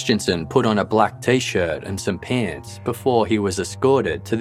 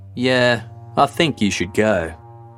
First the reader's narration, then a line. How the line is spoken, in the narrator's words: In an equally unconcerned tone, she replied